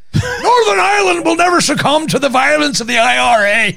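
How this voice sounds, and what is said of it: Ian Paisley impression, Northern Irish. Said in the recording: “Northern Irish impression? ... It's not very good. ... an Ian Paisley impression”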